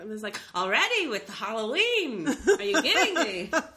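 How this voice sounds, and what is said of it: Put-on Jewish accent. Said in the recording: “I don't know why I want to do a Jewish accent.”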